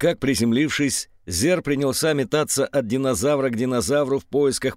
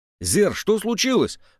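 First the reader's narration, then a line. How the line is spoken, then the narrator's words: Anxious question. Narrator (Russian): взволнованно спросила Катя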